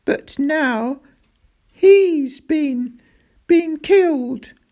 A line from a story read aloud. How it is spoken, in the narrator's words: sobbed Roderick